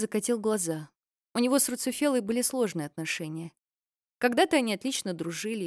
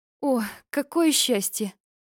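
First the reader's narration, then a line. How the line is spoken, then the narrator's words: Breathless relief. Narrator (Russian): выдохнула мать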